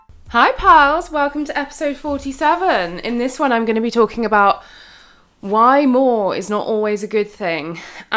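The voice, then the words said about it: Out of breath, breathless speech. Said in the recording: “I sound really out of breath ... I'm a little out of breath”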